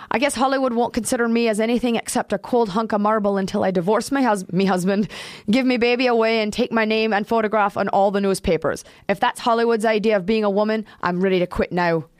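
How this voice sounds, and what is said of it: Put-on accent. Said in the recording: “How good my accent is ... It's very good.”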